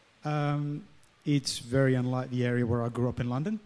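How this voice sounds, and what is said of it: English accent. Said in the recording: “an English accent”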